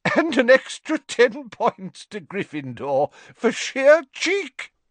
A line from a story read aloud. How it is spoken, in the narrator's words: Still chuckling